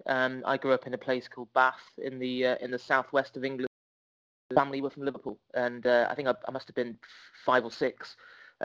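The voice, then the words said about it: Southwest English accent. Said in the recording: “people can probably tell from my accent, I'm not from Liverpool originally”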